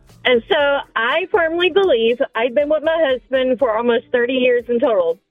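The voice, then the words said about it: Regional accent. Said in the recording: “with an accent.”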